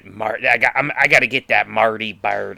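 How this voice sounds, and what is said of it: Imitates another person's accent. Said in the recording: “I was using that Darlene's uh, accent”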